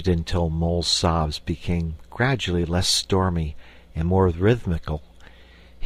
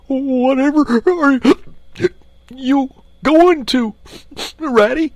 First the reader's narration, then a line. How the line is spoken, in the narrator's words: cried the tearful Mole, looking up in alarm